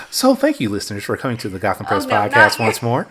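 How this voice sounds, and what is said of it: Polite customer service voice. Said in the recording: “Using his customer service voice”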